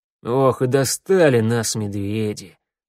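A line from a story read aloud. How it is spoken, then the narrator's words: Sigh. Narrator (Russian): вздохнул старший Урсу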